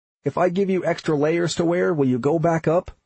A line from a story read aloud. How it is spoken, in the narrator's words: I shouted